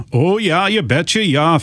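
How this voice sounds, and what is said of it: Put-on Minnesota accent. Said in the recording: “fake Minnesota accent”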